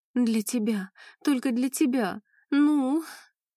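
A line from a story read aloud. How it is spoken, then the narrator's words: Whimpering. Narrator (Russian): Заскулила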